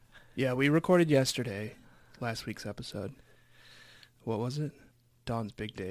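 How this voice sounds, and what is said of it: Sniffly congested voice. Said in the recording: “I'm going to be a little sniffly. I'm going to be a little throat cleary tonight because I have a cold.”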